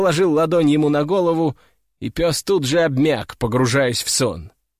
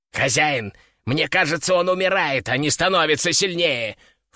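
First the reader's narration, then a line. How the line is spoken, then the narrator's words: Panicked squeak. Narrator (Russian): в панике запищал Кеша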